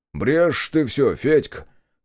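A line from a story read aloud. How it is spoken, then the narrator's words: Scoffing snort. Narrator (Russian): хмыкнул тот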